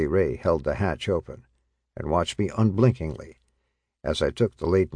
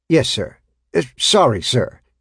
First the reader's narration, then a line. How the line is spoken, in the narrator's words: I stammered